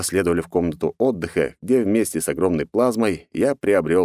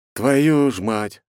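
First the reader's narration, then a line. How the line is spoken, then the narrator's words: Sighed. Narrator (Russian): вздохнул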